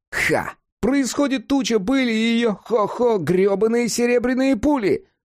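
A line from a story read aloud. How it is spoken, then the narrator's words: Overexcited yell, cat. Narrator (Russian): Подавшись вперед от избытка чувств, завопил кот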